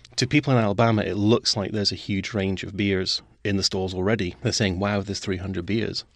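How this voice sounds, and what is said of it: Scottish accent. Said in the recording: “you can tell from the accent, I'm originally from Scotland”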